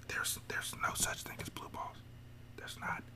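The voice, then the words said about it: Whispering. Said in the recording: “why I'm whispering”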